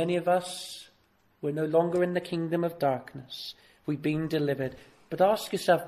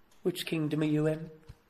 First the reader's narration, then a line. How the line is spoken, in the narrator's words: He whispers in their ear